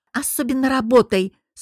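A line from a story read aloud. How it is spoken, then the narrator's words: Mocking growl. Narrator (Russian): с издевкой прорычала я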